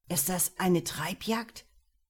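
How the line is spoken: Strained voice. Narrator (German): fragte Lukas mit gepresster Stimme

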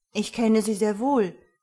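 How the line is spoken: Call. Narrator (German): rief

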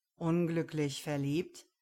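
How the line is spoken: Mocking, smiling. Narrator (German): lächelte spöttisch

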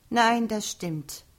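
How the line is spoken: Sighing. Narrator (German): Antonia seufzte

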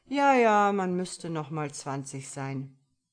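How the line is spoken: Sighing. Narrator (German): seufzte sein Begleiter

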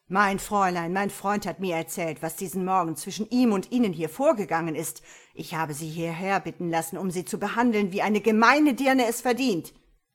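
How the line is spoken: Called out. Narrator (German): Sofort rief D'Este ihr zu

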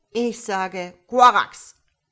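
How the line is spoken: Angry shouting frog. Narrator (German): schrie der Frosch ärgerlich

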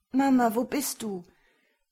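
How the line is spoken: Desperate child's wail, coughing. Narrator (German): jammerte der erste Junge verzweifelt und musste ständig husten

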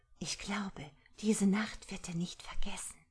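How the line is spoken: Whisper. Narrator (German): flüsterte sie ihrer Großmutter zu

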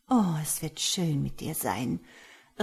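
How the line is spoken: Old woman murmuring in ear. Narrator (German): raunte die Muhme ins Ohr

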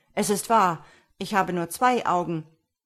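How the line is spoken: Called out. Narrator (German): rief Mistifax

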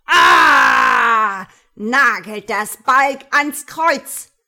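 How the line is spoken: Shouting. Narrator (German): brüllt

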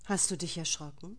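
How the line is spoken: Gentle question. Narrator (German): fragte er sie sanft

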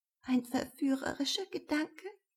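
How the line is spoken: Quiet answer. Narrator (German): antwortet sie leise

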